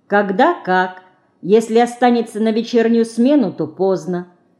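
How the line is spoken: Calm. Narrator (Russian): она спокойно ответила

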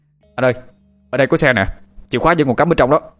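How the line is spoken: Shout. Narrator (Vietnamese): anh Thông la lên

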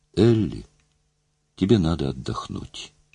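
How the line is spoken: Quiet. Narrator (Russian): тихо сказала Мэри

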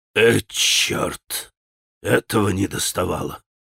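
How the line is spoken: Angry mutter. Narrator (Russian): пробормотал он со злобой

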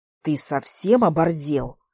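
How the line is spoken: Angry whisper. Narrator (Russian): Зло шепчет мне он

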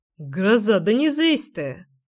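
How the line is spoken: Irritated curt remark. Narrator (Russian): Раздраженно бросил Тит

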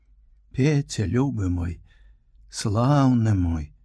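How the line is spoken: Tender, affectionate. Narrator (Belarusian): так ласкава, так пяшчотна

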